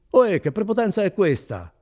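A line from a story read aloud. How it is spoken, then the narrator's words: Shouting. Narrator (Italian): gridò Renzo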